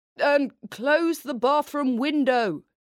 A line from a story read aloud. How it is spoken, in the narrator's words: he yelled